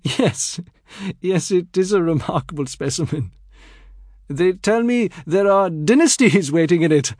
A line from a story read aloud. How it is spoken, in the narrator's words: laughing together, and Aziz was saying